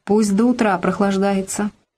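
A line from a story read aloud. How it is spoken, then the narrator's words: Mumbling. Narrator (Russian): Егор Петрович перестал хохотать, промычал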